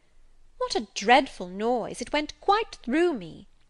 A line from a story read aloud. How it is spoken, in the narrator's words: exclaimed Abbot